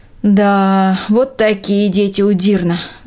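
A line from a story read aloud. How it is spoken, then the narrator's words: Sighing. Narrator (Russian): вздохнула Трина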